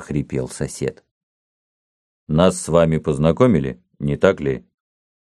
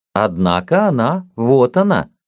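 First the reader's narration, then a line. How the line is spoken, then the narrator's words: Cheerful objection. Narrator (Russian): весело возразил Цвет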